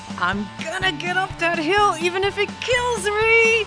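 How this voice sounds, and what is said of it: Screaming, straining shout. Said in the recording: “I'm screaming”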